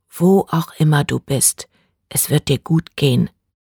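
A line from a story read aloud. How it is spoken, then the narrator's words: Whispered. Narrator (German): flüsterte Bree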